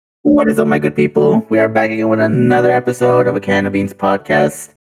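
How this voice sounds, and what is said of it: Electronically altered voice. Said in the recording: “I'm testing out with a voice changer.”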